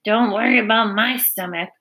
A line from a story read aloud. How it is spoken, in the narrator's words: snarled Templeton